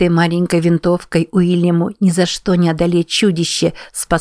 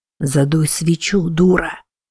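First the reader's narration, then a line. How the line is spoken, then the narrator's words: Hissed. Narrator (Russian): прошипел он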